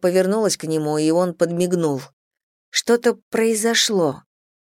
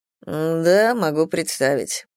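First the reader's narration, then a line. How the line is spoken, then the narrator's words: Mumbling. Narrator (Russian): пробормотал Мэтью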